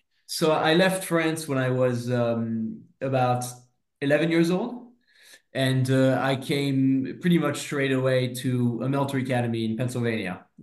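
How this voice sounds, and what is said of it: French accent with American blend. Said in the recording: “there's obviously a French element to your accent there, but it's very Americanized as well ... a wonderful blend of the old alliance of America and France”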